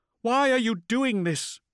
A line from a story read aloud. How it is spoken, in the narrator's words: she asked, her voice still raised